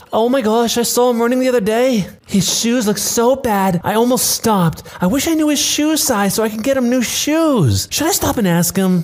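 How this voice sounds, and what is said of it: Stereotypical mom voice. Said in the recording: “in a stereotypical mom voice”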